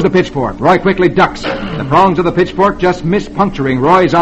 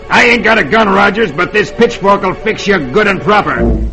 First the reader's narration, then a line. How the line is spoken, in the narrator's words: Dolan snarls